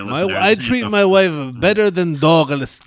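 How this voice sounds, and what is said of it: Bad comedic foreign-accent character impression. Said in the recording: “that's a even that's a worse Borat impersonation”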